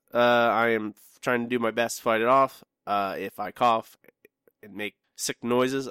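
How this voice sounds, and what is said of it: Sick voice with a cold. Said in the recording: “I have a cold... I'm on cold medicine”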